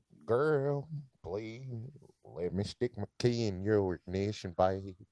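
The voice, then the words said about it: Put-on country twang. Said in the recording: “I'm just throwing a country twang on it”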